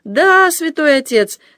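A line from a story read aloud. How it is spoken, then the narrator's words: Laughing. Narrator (Russian): смеясь промолвил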